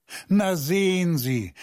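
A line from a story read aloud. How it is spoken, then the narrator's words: Laughing. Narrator (German): Er lachte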